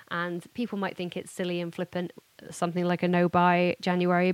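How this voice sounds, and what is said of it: Hoarse, failing voice. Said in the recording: “I'm also losing my voice already. Can you tell? It's just so bad. It's so bad.”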